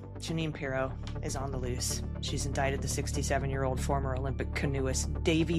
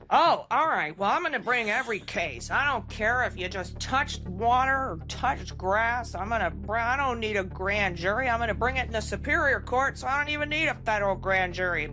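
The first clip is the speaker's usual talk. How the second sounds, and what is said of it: Jeanine Pirro impression. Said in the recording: “I need your Jeanine Pirro impression”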